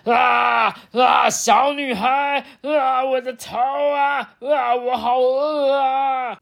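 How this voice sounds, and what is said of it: Hoarse troll character voice. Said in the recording (Chinese): “食人妖呢，发出那个嘶哑的声音说”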